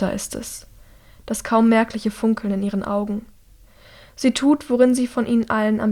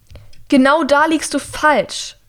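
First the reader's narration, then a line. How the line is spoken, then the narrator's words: Shouting over alarm. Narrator (German): schreit sie über den Alarm hinweg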